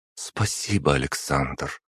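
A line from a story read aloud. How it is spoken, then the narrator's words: Quiet. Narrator (Russian): тихо произнесла Анна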